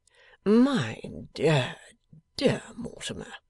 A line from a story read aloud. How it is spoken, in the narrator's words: returned his friend, lazily